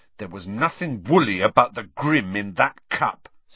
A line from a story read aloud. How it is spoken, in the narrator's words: said hotly